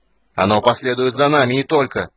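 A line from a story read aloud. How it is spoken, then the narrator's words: Yelling. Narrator (Russian): заорал в ответ Стурм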